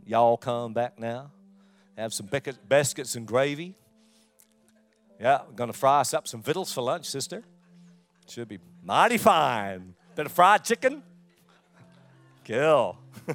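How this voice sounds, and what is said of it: Put-on Southern US accent. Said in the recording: “she got a beautiful down south accent.”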